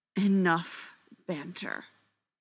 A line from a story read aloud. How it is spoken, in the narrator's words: the biggest alpha hisses from the back of the group